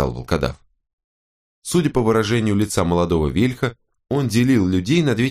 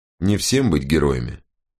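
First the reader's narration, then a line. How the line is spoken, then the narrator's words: Calm. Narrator (Russian): по-прежнему спокойно проговорил Вен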